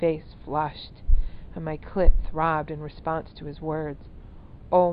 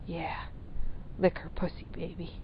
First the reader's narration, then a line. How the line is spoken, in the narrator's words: whispered